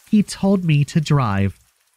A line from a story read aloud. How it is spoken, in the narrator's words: sobbed into my ear